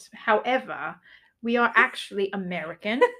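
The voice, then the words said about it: Put-on British accent by American. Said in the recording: “speaking in a British accent ... we don't speak with a British accent ... it sounds terrible after we've been speaking in a British accent”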